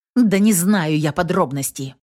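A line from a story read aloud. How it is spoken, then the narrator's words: Slightly irritated witch. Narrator (Russian): чуть раздраженно ответила ведьма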